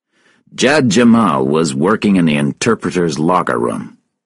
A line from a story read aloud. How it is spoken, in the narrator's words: Russell said